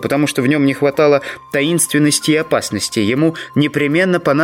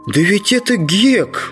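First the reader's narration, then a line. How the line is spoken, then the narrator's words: Exclaimed. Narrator (Russian): воскликнул Джим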